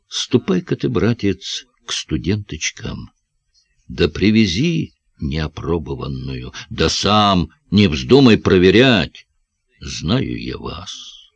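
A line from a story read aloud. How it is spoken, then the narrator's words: Whisper. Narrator (Russian): шепнул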